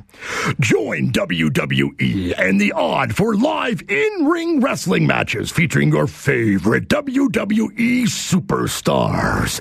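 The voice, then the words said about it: Wrestling announcer voice. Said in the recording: “read this in my wrestling announcer voice. I didn't even know I had a wrestling announcer voice”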